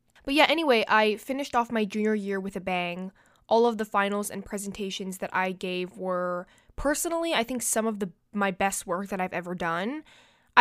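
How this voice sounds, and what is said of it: Stuffy, congested nasal voice. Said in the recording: “my voice sounds a little like weird. I'm a little bit stuffy ... my nose is just clogged”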